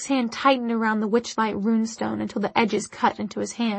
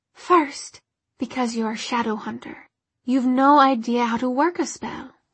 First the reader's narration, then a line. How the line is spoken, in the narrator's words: she said calmly